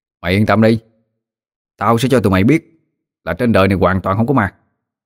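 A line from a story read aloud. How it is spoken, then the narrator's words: Firm, confident. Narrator (Vietnamese): Tôi vên mặt đáp bằng giọng chắc nịch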